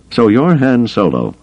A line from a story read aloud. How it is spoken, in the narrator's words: the slicer Ghent said brightly